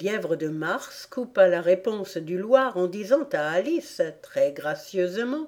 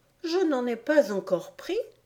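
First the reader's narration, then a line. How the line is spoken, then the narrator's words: Offended retort. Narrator (French): répliqua Alice d'un ton offensé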